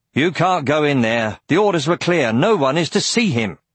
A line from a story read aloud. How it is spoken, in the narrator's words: A man argued in a loud voice